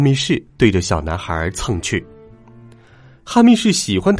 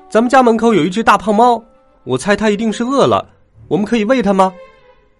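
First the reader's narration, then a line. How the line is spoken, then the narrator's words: Shouting boy. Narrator (Chinese): 一个小男孩大叫起来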